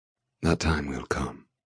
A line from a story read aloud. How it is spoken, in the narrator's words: he murmurs